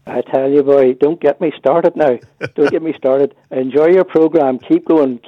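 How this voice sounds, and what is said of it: Rich Fermanagh Northern Irish accent. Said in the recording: “the richness of your accent ... Especially when you're getting a wee bit annoyed there. More Fermanagh comes out in it.”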